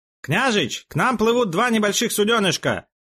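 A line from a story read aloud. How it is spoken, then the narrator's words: Shouting. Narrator (Russian): крикнул он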